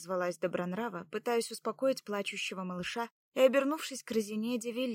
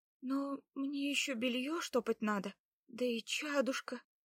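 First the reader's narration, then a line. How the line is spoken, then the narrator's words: Uncertain young woman. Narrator (Russian): начала неуверенно молодая женщина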